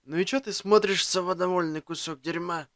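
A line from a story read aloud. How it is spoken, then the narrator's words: Hoarse rasp. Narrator (Russian): прохрипел я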